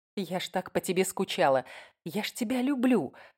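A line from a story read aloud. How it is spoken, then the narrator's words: Whisper. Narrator (Russian): шептала я Риму в ухо фонтанного чудища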